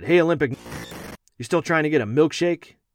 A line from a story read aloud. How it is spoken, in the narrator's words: shouted again